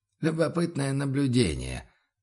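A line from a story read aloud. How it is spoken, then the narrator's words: Quiet. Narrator (Russian): произнес Бруно негромко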